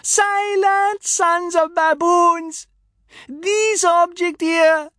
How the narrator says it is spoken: Zagalo, shouting above the tumult

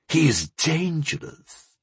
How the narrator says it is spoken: he hissed

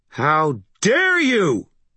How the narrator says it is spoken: she snarled, her rage turning incandescent

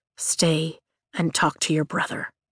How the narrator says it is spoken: he says quietly

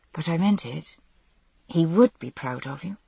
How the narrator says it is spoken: said softly

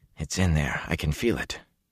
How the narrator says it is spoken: Matt kept muttering to himself

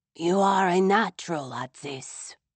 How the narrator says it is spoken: he whispered

